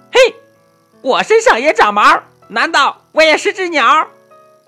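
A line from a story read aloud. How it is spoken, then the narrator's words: Loud shout. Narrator (Chinese): 一只猴子 向他大喊一声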